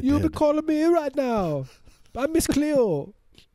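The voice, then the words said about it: Put-on Jamaican accent. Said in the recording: “Her accent was fake. She's not really Jamaican ... that Jamaican accent”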